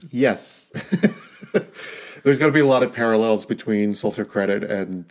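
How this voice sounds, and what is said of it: Usual voice. Nothing is said of it.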